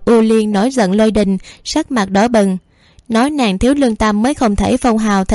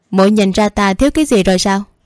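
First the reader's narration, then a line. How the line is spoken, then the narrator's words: Impatient angry question. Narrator (Vietnamese): không kiên nhẫn ... tức giận hỏi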